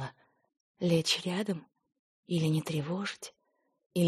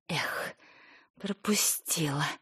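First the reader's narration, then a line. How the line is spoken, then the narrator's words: Sigh. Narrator (Russian): вздохнула Ника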